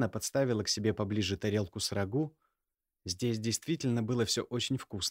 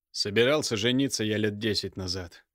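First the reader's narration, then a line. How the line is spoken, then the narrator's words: Dry tone. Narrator (Russian): произнес как-то сухо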